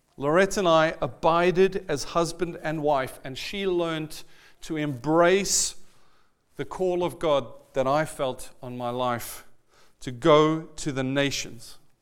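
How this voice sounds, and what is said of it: Speaks with a funny accent. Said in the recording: “this guy with the funny accent”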